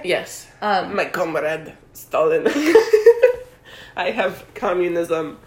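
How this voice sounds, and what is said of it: Poor attempt at Russian accent. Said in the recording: “I don't know how to do a Russian accent”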